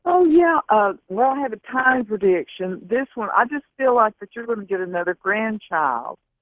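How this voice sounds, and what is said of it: Tennessee Southern accent. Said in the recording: “And there's there's Tennessee right there.”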